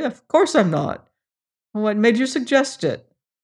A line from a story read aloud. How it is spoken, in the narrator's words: Sewell laughed